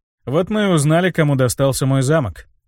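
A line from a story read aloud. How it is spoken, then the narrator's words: Snorting. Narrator (Russian): хмыкнул я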